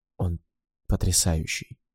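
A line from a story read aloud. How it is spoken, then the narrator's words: Whispered. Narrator (Russian): прошептала она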